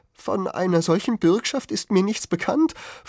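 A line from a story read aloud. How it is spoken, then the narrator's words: Shrill protest. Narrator (German): verwahrte sich mit schriller Stimme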